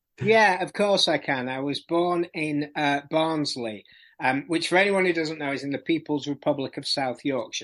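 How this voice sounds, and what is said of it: Non-London English regional accent. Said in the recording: “That's not a London accent.”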